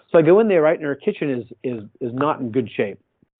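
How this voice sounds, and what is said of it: Boston accent. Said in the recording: “you got a funny accent. Where are you from? I said, oh, I'm from Boston.”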